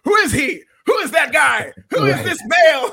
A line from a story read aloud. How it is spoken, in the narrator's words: Byron Saxton, of course, is screaming